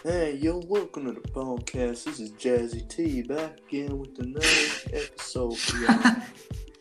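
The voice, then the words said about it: Put-on exaggerated super deep voice. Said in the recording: “My super deep voice that I'm totally gonna have”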